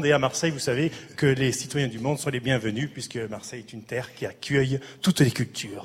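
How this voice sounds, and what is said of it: Marseille French accent. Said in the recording (French): “Mais vous avez l'accent.”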